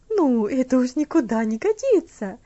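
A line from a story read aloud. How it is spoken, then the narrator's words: Exclaiming. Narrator (Russian): воскликнула мисс Стивенс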